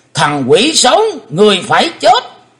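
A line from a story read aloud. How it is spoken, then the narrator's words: Loud roar. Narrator (Vietnamese): Lão đại ác ma gầm to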